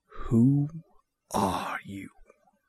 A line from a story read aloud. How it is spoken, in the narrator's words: he says in a cold whisper